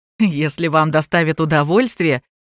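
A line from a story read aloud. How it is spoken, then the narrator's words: Buyer's snorting chuckle. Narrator (Russian): хмыкнул покупатель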